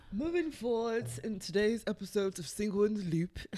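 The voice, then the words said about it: Put-on male British accent. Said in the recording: “this is my British accent. a man, a male British accent”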